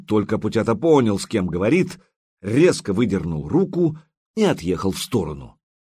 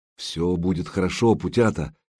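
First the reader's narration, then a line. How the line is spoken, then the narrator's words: Quiet. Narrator (Russian): негромко произнес Богуслав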